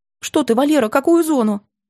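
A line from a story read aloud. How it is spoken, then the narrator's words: Flustered babbling mother. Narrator (Russian): залепетала мать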